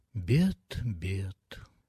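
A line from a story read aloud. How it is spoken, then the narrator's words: Mutter. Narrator (Russian): пробормотал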